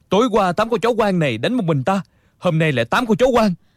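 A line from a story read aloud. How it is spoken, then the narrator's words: Loud shout. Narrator (Vietnamese): Địch Dân quát lớn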